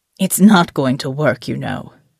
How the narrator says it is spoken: said in his ancient rasp of a voice

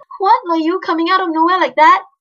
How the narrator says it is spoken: Ali snapped to cover her relief

